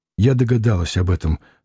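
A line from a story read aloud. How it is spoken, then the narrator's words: Light sigh. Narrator (Russian): сказала она, легко вздохнув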